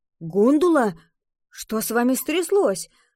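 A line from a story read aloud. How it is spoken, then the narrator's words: Worried exclamation. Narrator (Russian): обеспокоенно воскликнул он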